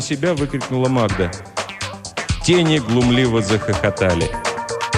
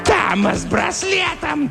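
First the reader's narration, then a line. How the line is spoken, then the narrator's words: Shrill voice. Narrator (Russian): донесся визгливый голос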